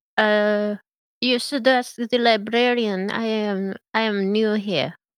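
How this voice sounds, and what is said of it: Put-on Russian accent. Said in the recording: “I really like your accent. Where are you from? ... I'm from Russia.”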